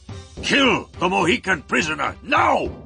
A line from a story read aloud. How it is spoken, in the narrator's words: shouted